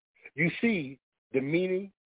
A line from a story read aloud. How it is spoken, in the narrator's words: said the father